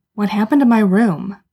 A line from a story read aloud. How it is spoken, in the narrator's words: Sam demanded fiercely, channeling alarm into anger